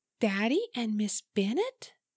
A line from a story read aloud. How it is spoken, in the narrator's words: Mouth gaping, whispered